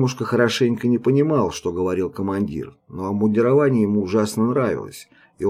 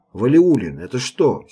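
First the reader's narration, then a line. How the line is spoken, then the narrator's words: Angry shout. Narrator (Russian): сердито крикнул Мотовилов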